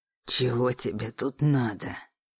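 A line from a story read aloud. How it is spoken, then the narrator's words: Growl. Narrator (Russian): прорычал Александр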